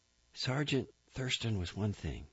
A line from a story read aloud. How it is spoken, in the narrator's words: he whispered